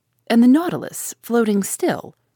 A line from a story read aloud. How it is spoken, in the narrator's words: exclaimed